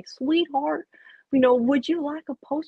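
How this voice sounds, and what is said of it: Weak imitation of South Carolina drawl. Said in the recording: “I can't really do a South Carolina accent very well, but in her deepest South Carolina draw”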